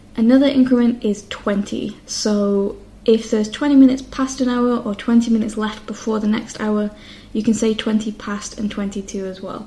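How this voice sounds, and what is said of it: Northern English accent. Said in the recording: “I don't really enunciate or pronounce "to" exactly. I would say something like 10 to 6, and it sounds more like I'm saying "t," just the letter "t" instead of "to." That is just my accent being from the north of England”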